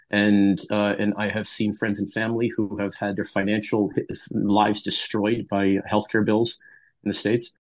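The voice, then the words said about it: American accent. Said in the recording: “you can tell from my accent, I'm from the United States”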